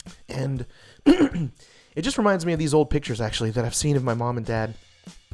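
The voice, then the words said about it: Choked up, emotional voice. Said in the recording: “I'm getting a little choked up.”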